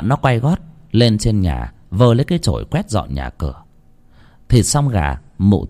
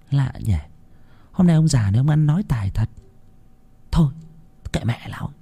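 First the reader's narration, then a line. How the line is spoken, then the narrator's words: Puzzled muttering. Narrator (Vietnamese): con Loan lấy làm lạ, nó lẩm bẩm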